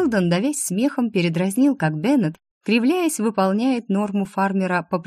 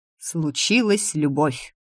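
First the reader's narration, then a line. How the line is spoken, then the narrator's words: Wry snort. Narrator (Russian): хмыкнул Шелдон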